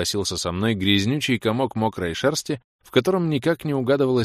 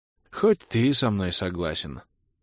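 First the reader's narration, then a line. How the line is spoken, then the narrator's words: Sigh. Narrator (Russian): вздохнул я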